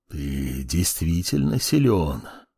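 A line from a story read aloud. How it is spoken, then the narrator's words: Admiring mutter, ancient old voice. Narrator (Russian): восхищенно пробормотал старик каким-то древним голосом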